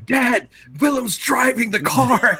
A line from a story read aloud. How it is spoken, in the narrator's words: we're both yelling, and I go